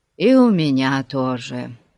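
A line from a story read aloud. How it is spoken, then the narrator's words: Sigh. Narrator (Russian): вздохнул Пип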